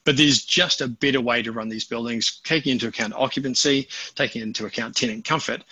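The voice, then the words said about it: New Zealand accent. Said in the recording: “that's not a Toronto accent. ... I hail from sunny little New Zealand.”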